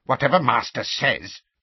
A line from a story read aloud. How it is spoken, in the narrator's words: he muttered furiously